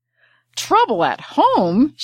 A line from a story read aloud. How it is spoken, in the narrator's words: shouted the apothecary